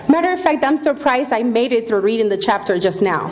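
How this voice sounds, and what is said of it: Speaker's own foreign accent. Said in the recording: “with my accent, I cannot get it right”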